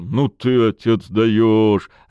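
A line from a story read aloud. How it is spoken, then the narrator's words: Loud laughing. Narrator (Russian): расхохотался Бобрик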